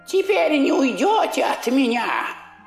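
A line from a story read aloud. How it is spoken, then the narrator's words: Shouting. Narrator (Russian): крикнула она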